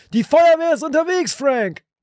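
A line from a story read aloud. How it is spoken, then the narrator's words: Shouting. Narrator (German): Winston schrie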